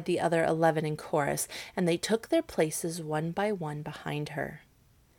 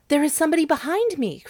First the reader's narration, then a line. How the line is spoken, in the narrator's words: cried the princess